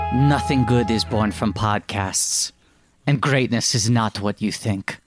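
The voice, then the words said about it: Imitates another person's voice. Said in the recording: “I'm doing a Chris Pine impression.”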